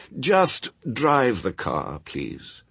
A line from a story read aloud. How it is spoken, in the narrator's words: he said wearily